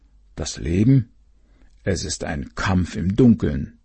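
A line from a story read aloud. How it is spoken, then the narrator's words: Mole grumbling. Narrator (German): der Maulwurf ... brummte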